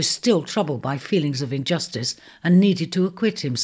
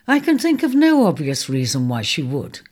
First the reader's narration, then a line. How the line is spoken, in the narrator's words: Cap replied coolly